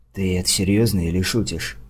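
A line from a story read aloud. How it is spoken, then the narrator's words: Whispered in ear. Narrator (Russian): прошептал я на ухо Лила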